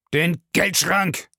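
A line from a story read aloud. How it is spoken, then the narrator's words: Grumbled. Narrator (German): brummte Bellamy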